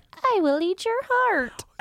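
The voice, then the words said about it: Weird demon character voice. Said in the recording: “In, like, a weird voice.”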